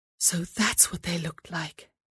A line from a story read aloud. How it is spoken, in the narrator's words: she whispered to herself